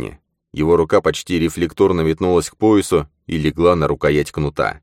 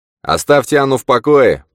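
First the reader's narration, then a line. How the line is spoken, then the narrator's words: Shouted. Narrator (Russian): прокричал Манни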